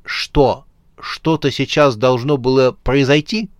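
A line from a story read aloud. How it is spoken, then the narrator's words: Bear's snort. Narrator (Russian): Старший медведь хмыкнул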